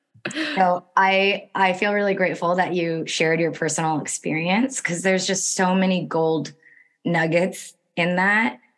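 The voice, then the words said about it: Hoarse, strained, fading voice. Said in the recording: “I'm losing my voice. My throat got a little weird last night... I apologize if it's hard to hear me”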